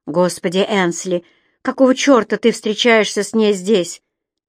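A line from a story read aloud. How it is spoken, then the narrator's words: Angry question. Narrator (Russian): сердито спросил Кэмерон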